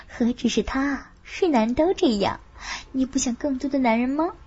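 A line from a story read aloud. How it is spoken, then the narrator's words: Whispered. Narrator (Chinese): 凤芝也悄声说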